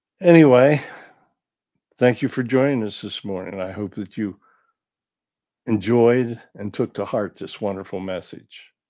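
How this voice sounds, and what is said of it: Slightly impaired, rough voice. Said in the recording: “my voice is still messed up a little bit”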